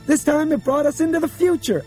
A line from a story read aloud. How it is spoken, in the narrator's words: Albert cried